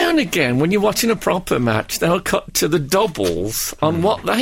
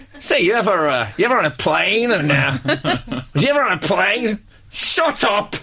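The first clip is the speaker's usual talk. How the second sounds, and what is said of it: American stand-up comedian voice. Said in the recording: “I sound like an American stand-up comedian”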